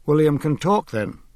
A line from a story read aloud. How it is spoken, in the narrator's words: Dalgliesh asked